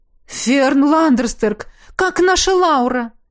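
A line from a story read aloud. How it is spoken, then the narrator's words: Fervent exclamation. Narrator (Russian): горячо воскликнула Ингрид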